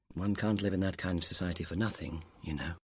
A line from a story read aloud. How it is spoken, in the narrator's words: George said quietly